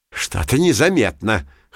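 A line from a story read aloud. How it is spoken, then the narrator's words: Snorting hmph. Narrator (Russian): хмыкнул Пушок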